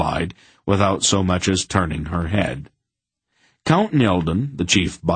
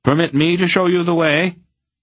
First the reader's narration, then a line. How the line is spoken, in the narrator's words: he called out to Aunt Paul